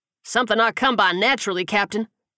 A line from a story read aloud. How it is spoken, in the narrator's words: Johnson bellowed from the back